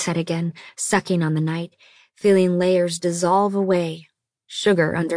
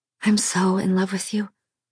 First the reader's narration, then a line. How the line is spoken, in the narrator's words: she said, lips moving weakly